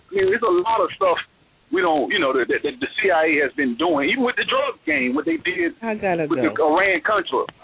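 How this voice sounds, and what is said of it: Slight Southern American twang. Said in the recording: “little southern twang”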